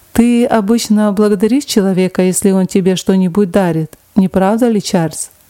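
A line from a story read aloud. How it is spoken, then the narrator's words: Plain. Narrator (Russian): спросил его Визерби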